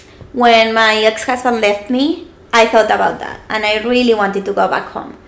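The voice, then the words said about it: Noticeable non-native English accent. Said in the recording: “I don't have to work on my accent for people to understand me and modulate”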